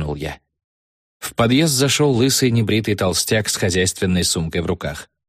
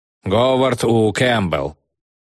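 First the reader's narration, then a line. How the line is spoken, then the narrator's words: Menacing question. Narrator (Russian): грозно спросил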